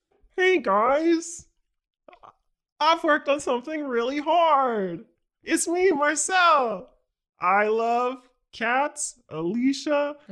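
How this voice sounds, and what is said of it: Imitates another person's voice. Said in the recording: “my best Marcel impression ... That sounds right.”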